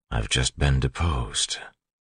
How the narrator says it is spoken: Elland said quietly

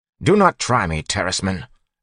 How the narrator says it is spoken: Jastis snapped

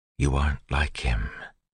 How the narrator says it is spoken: Zane's words came back to her, seeming to whisper in her mind

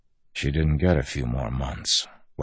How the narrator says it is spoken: Wax said softly

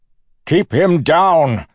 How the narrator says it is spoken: Suit shouted

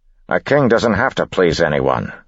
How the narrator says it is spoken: Set snapped

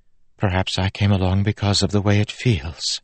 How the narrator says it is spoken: Steris said softly

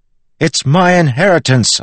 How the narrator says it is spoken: yelled back

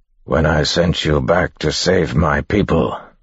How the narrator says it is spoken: a voice growled

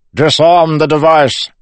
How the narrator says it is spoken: Suit shouted toward the door

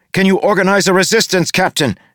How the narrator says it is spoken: She shouted over the increasing din

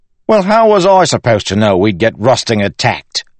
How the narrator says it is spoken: Wayne exclaimed

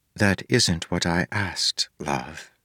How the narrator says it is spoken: she said softly

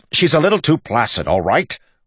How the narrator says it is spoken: Waxillium snapped

